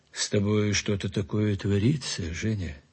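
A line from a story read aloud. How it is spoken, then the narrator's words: Quiet. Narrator (Russian): сказал тихо Платонов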